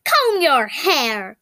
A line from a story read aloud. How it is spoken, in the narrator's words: he barked